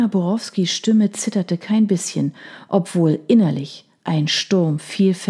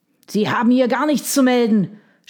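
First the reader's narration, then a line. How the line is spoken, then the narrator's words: Shouted. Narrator (German): schrie er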